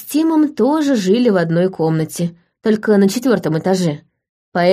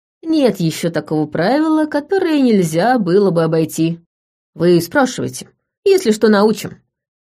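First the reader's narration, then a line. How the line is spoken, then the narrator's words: Cheerful agreement. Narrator (Russian): весело поддержал его Тим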